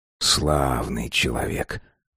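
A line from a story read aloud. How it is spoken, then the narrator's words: Muttering. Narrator (Russian): пробормотал Бедвелл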